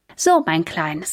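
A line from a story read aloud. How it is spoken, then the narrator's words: Plain. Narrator (German): sagt er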